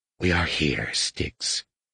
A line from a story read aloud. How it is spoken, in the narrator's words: rasped